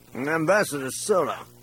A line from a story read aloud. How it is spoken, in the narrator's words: said, slurring his words